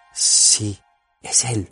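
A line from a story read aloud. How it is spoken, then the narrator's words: Whisper. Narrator (Spanish): susurró Frodo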